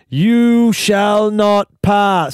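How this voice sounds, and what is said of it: Gandalf impression. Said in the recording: “Here's an impersonation. ... Gandalf?”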